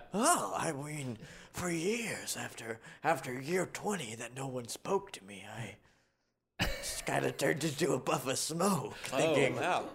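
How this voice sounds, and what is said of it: Sexy raspy voice. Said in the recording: “You have a sexy voice. ... It's kind of raspy.”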